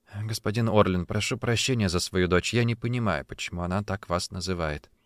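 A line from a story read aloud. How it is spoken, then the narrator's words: Quiet. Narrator (Russian): Когда Полина наконец задремала у меня на руках, Софи тихо сказала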